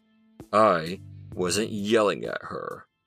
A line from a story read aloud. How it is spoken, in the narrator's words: Jefferson replied coldly